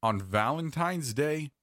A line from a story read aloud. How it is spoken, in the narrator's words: she asked